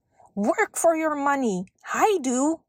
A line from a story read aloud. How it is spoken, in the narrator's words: he yelled